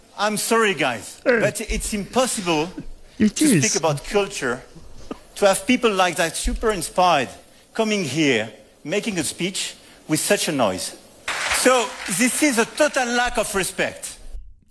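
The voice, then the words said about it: French accent speaking English. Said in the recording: “I just love the accent. Getting told off in French is so much better”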